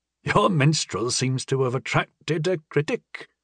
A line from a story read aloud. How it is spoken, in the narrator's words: Sandy chuckled